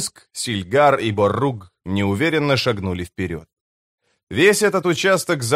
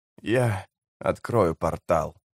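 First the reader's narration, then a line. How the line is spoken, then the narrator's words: Hoarse announcement. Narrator (Russian): хрипло объявил Натий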